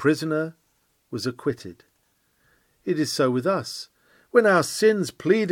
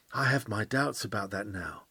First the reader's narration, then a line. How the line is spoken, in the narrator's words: he began to whisper